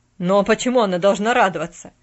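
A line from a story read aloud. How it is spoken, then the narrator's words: Barking. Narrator (Russian): рявкнул Джон Пендлтон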